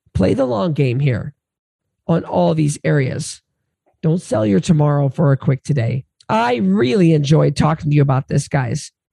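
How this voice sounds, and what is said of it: Hoarse, laryngitic voice. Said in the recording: “my voice is so hoarse. This laryngitis”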